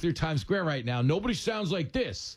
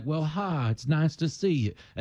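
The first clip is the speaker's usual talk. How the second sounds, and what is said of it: Put-on friendly Midwestern accent. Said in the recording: “They all sound like... And that is the Midwest”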